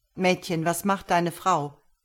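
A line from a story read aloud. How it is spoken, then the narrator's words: Plain. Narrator (German): fragte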